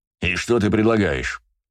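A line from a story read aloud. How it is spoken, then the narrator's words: Angry question. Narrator (Russian): зло спросил Браво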